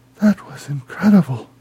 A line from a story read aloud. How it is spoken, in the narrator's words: she gasped